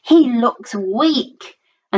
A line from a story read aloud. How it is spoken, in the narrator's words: she grumbled